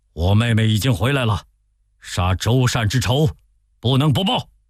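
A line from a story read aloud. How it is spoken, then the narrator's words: Furious. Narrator (Chinese): 孙权大怒说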